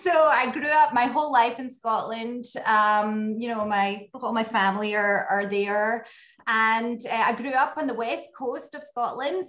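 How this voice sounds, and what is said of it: Slight Scottish accent. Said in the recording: “You have a little Scottish accent I detect.”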